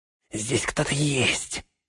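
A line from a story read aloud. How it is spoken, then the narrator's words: Whisper. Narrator (Russian): шепнул он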